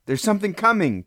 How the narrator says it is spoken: Kazik cried

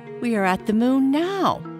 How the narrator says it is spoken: laughed the elf

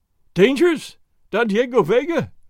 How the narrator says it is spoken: the landlord cried, while tears ran down his fat cheeks

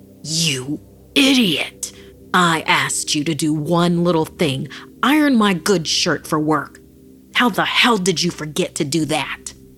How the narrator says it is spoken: Filled with rage, found himself bellowing

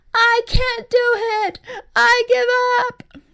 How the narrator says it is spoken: EJ wailed

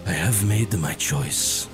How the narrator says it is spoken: Joseph whispered

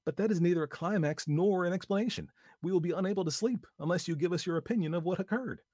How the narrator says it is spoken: One of them exclaimed

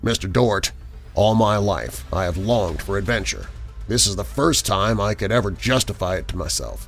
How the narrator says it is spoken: The skipper said gruffly

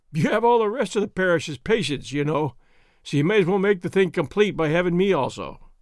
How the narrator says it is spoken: Ripley feebly, and then, with a half-hysterical laugh

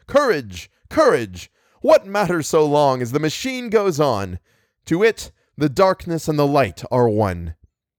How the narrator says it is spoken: heroic the tone of the lecturer as he cried

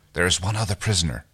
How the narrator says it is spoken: whispers

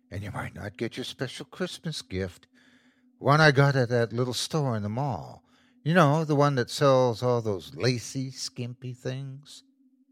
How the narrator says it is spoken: she whispered

